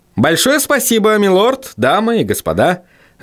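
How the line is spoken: Cheerful. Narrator (Russian): жизнерадостным тоном произнес Вильям

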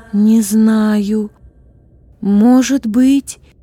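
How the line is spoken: Uncertain reply. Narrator (Russian): неуверенно ответила Злата

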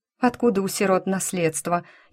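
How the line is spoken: Ironic snort. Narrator (Russian): иронично фыркнула Грейс

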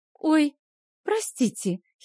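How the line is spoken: Giggle. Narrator (Russian): хихикнула его тетушка

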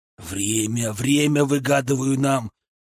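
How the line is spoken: Urgent hiss. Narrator (Russian): прошипел я, понимая, что они меня сейчас своими собственными руками заставят замолчать

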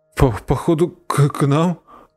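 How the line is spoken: Stammering. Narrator (Russian): стал заикаться поганка

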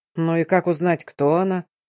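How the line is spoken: Grumbling, then quieter. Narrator (Russian): заворчал напарник и заговорил еще тише

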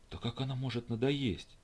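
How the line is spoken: Whisper. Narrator (Russian): прошептал следопыт

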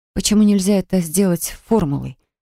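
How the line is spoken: Breathless exhale. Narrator (Russian): выдохнула я

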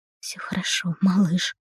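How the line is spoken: Soft whisper. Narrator (Russian): прошептала тихо

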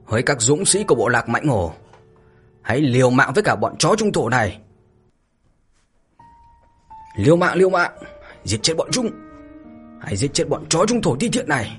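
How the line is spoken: Angry shout. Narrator (Vietnamese): Hổ Bào ... giận dữ mà thét

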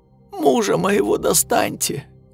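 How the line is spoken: Hoarse. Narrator (Russian): хрипло сказала она

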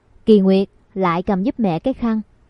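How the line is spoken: Smiling speech. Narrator (Vietnamese): Mẹ mỉm cười nói

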